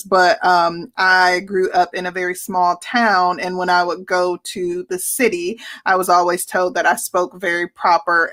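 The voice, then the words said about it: Southern American twang. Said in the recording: “You hear my Southern twang in my speech now because I have been in Atlanta for 20 years”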